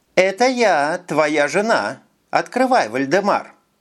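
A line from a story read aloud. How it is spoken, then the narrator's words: Cheerful shout. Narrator (Russian): весело крикнула она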